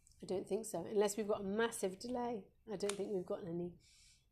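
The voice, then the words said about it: Croaky, hoarse voice. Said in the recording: “I'm at the stage of losing my voice. I'm sorry, I've gone really, really croaky.”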